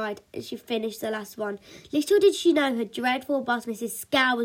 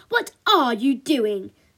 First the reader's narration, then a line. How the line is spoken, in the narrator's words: barked